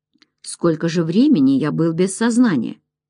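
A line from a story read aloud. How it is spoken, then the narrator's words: Calm. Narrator (Russian): сказал спокойно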